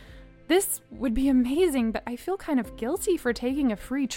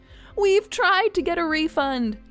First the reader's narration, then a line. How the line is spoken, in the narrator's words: Bob said happily